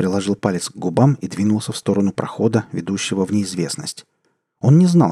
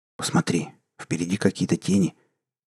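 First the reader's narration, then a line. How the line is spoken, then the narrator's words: Quiet mutter. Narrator (Russian): тихо пробормотал Энгор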